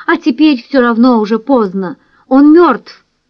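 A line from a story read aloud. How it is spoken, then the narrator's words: Detached exclamation. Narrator (Russian): Он отрешенно воскликнул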